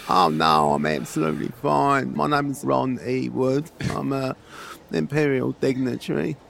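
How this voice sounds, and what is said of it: Croaky character voice. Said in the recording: “You sound a bit croaky.”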